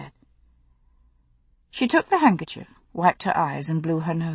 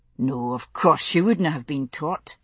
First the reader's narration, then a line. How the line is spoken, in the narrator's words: he murmured, as though to himself